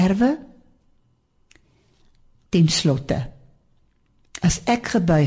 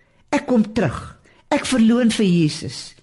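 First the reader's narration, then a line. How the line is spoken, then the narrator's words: Crying out. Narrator (Afrikaans): Maar een het uitgeroep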